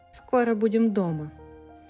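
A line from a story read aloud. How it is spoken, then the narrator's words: Calm nonchalant tone. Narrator (Russian): как ни в чем не бывало, спокойным тоном Булка произнес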